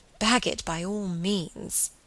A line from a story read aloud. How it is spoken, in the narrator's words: murmured Margaret